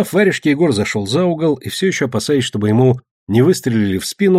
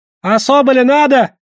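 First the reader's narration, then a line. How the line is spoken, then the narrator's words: Frightened merchants shouting. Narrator (Russian): кричали торговцы, видимо, готовые все отдать со страха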